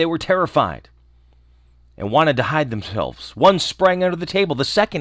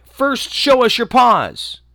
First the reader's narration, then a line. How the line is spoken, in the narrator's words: The little kids cried